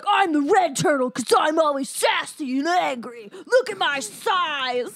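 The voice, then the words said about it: Angry, sassy cartoon turtle voice. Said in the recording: “That sounds like Raph. He's angry. ... That was my Raphael impression.”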